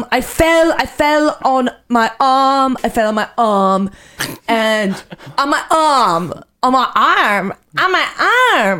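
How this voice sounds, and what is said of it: Put-on accents that keep changing. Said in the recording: “This is not my true voice. This is not my accent ... Oh, the accents change ... all of a sudden I have this like weird thing where my voice just changes”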